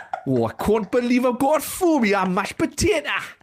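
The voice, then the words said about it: Put-on Teesside accent. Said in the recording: “taking the mick out of their voice like that ... I'm not even sure that's a very good Thornaby”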